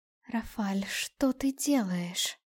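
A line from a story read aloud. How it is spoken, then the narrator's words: Quiet question. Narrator (Russian): тихо спросила десятая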